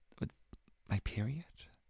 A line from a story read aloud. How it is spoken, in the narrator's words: I whispered, ashamed